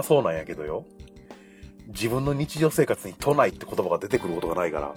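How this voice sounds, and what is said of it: Western Japanese, Kansai-like intonation. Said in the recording (Japanese): “関西弁にすごい合わね ... 南の言葉というか ... イントネーションは関西か ... 西寄りだよね”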